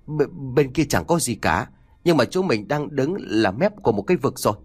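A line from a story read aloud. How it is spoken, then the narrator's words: Trembling, stammering boy. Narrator (Vietnamese): thằng Túc run rẩy ấp úng mãi trả lời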